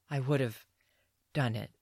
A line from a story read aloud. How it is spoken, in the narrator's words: Renfrey rasps